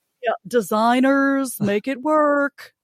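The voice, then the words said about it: Tim Gunn impression. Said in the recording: “my Tim Gunn impression ... That was good.”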